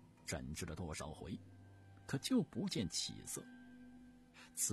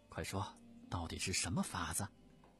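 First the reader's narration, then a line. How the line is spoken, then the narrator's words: Delighted, eager question. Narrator (Chinese): 慈禧太后不由得心花怒放，急忙，接着问道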